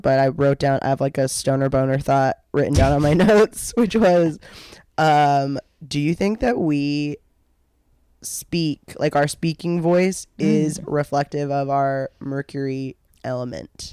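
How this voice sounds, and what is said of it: Congested, different-sounding voice. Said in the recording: “I have a little bit of a cold, so my voice is different”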